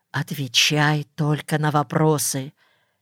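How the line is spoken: Whisper. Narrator (Russian): Соня и Маша успели мне шепнуть

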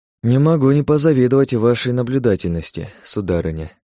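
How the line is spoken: Sighing. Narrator (Russian): вздохнул я

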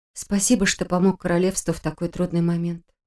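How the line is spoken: Quiet speech. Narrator (Russian): тихо произнесла

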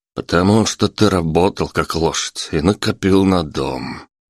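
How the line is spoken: Sighing guest. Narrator (Russian): вздохнул гость

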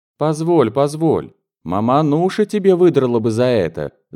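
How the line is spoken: Roaring laughter. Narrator (Russian): Захохотал Сухарев

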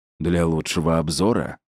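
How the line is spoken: Hoarse speech. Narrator (Russian): хрипло сказал он

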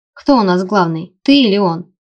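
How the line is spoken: Teasing. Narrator (Russian): поддразнила я

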